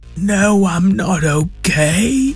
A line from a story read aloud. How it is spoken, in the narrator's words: Zora moaned